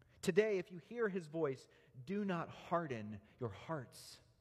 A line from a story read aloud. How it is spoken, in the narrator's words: The writer of Hebrews pleads